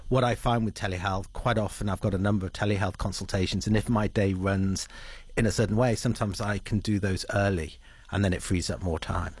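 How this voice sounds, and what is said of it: English accent. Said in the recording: “obviously originally from England, at a guess, listening to that accent”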